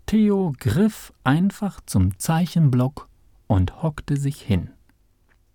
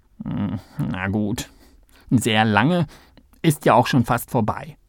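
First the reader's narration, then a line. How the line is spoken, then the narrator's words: Grumbled. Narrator (German): brummte Kalle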